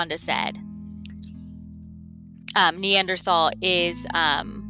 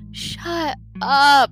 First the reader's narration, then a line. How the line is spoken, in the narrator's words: Jessica pleaded in a whisper